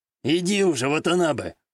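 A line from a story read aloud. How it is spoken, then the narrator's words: Snorting. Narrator (Russian): хмыкнул Такаши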